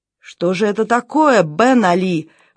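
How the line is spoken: Exclaiming. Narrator (Russian): воскликнул он

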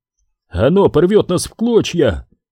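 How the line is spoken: Shouted out. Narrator (Russian): выкрикнул Фальк

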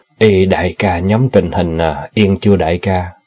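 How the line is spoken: Sighing, changed tone. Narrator (Vietnamese): Hắn ta thở dài rồi đổi giọng hỏi Thế

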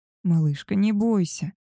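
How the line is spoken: Soft, gentle. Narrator (Russian): мягко произнес Габриэль

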